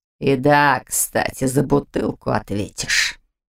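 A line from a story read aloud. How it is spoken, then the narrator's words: Hiss. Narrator (Russian): прошипел мужчина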